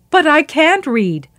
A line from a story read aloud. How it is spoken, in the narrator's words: Muhammad cried out